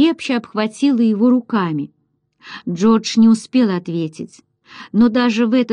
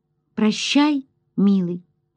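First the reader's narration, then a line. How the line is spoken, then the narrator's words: Quiet. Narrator (Russian): Джин тихо сказала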